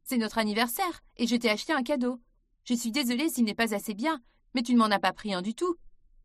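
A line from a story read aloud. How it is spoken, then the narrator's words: Cold. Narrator (French): dit Ben froidement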